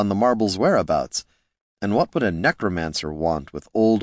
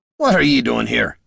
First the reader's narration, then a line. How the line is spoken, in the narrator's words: he barked